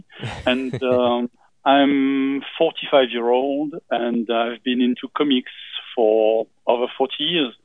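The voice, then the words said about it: French accent. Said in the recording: “as you can hear, maybe I'm from France because my accent may betray me”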